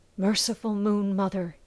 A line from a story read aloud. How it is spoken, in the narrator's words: Javin whispered